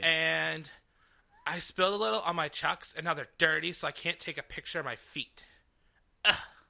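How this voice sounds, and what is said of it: Basic white girl voice. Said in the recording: “It's my basic white girl voice.”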